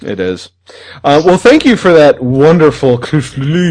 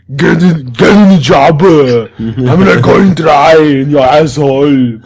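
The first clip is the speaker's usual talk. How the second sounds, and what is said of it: Poor imitation of another person's voice. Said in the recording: “That's a very terrible Arnold impersonation. Very terrible.”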